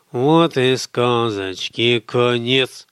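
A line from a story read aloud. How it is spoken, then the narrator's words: Purring to a lullaby tune. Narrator (Russian): промурлыкал Михаил на мотив колыбельной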